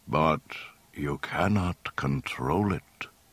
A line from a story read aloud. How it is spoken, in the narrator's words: Ben told him gravely